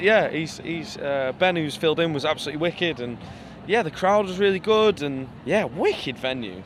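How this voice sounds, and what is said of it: Northern English accent. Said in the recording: “Hence the northern accent.”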